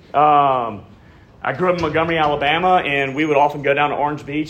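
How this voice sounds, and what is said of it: Alabama Southern accent. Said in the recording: “I grew up in Montgomery, if you can't tell by this amazing accent.”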